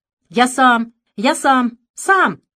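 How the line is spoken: Shouting. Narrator (Russian): закричал он

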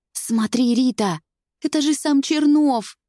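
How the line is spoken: Excited girl's whisper. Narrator (Russian): Взволнованно шепчет одна из девчонок

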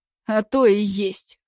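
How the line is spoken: Snorting remark. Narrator (Russian): хмыкнул ветеринар

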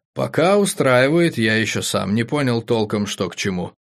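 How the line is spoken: Sighing. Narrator (Russian): вздохнул Игорь

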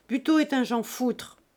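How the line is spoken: Sudden furious interrupting shout. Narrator (French): cria Fouan, subitement furieux et sans lui donner le temps d'achever

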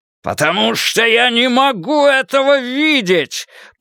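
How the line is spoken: Roar. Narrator (Russian): проревел он

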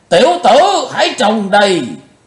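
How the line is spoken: Sudden loud roar. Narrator (Vietnamese): Lão Độc chợt gầm to

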